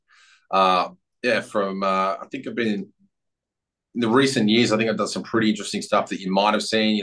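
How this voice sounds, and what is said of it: Australian accent. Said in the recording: “Australian, obviously. You can probably tell from the accent.”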